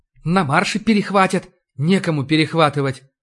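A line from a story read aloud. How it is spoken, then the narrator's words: Heavy sigh, interjecting. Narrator (Russian): вмешался поручик, вздохнув тяжело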